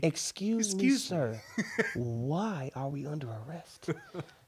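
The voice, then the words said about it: Put-on white-sounding voice. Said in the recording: “you put on the white voice.”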